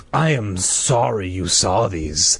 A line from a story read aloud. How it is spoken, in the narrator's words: the man said in a low, threatening voice